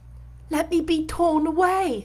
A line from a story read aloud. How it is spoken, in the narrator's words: cried